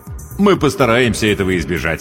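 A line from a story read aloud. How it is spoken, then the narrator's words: Plain. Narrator (Russian): сказал капитан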